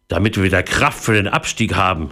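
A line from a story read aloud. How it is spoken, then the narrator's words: Plain. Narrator (German): sagte er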